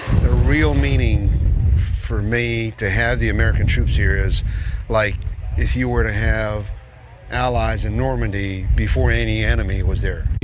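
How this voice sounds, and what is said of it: American-sounding accent. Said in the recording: “Listen to that dialect. Is this like an American”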